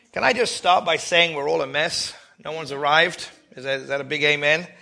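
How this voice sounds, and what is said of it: Voice affected, sounds unwell. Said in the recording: “You'll have to excuse my voice a little bit. I was in bed since Wednesday”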